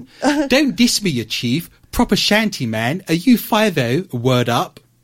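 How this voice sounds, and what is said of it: Street slang in posh English accent. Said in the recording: “talk like I'm from the hood, but in a posh English accent? ... Would that be jarring? ... Doesn't work.”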